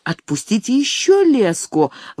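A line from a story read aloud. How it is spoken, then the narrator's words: Anxious shout. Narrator (Russian): волнуясь, крикнула папоротник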